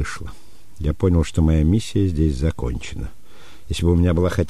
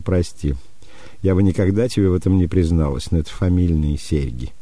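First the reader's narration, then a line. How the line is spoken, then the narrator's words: Laughing. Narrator (Russian): она с хохотом сказала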